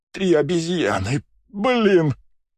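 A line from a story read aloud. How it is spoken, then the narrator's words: Groan. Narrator (Russian): простонал Жан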